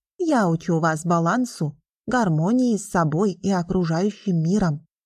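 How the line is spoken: Plain. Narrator (Russian): ответил преподаватель

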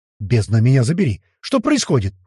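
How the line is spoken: Shouted. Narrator (Russian): выкрикнул маг

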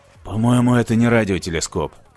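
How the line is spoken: Muttering. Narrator (Russian): пробормотал он

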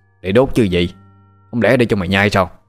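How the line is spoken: Old man, irritated. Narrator (Vietnamese): Lão đang chụp ảnh nghe hỏi thì quay đầu bực bội

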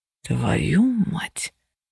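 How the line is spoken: Breathed into ear. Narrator (Russian): выдохнул Феникс мне на ухо

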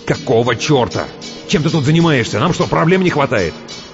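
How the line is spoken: Snapping. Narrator (Russian): огрызнулся

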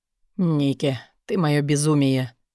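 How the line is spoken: Breathless exhale. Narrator (Russian): выдохнул Стил

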